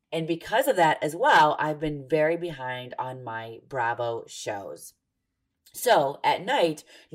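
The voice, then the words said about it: Husky, sick-sounding voice. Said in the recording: “there's something worse than my singing. And that would be my voice today ... I sound like a phone sex operator, but one that nobody would ever, ever, ever want to actually pay money to speak to. My kids got sick at school and they were so kind to pass it on to me. So because of that, I sound like this.”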